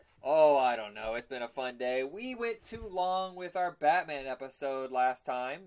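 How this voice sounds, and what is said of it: Hoarse voice. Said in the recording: “who's going hoarse now”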